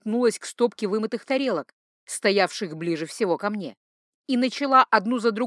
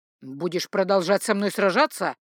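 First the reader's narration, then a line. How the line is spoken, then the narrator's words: Angry growl into ear. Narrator (Russian): гневно прорычал мой обидчик в самое ухо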